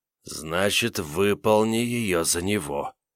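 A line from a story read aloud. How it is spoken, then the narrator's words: Hissing unfamiliar voice. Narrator (Russian): прошипел незнакомый голос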